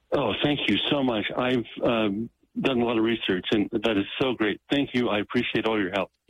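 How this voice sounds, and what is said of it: Relieved, grateful voice. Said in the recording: “I can hear the relief in your voice”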